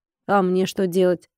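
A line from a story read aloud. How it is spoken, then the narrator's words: Confused question. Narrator (Russian): растерянно спросил Колин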